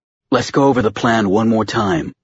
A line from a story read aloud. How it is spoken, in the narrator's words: Tom said